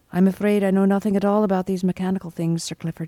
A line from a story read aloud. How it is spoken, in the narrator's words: said calmly